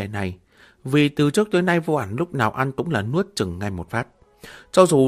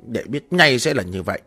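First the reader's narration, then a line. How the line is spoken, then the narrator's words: Embarrassed angry shout. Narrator (Vietnamese): Diệp Mặc thẹn quá hóa giận quát lên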